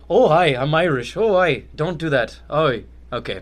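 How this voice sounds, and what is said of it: Put-on Irish accent. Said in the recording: “Can you do an Irish accent right now? ... terrible ... Pretty good ... That was me trying to do Irish.”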